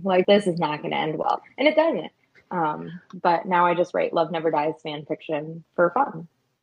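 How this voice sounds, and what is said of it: Hoarse, strained voice. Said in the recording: “I don't know if you can hear how my voice is gone, and it's not because I'm sick. It's because I sang karaoke really hard.”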